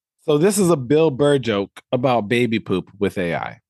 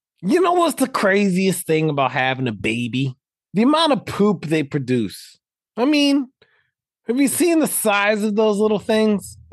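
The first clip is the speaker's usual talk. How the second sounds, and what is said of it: Imitates another person's voice. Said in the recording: “my best impression of Bill Burr”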